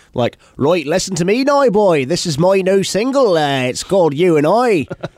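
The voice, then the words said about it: Rural farmy Ipswich English accent. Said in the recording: “in Ipswich, they talk like ... It's like super, it's farmery.”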